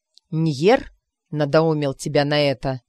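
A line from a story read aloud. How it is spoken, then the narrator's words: Through gritted teeth. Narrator (Russian): наконец процедила Рина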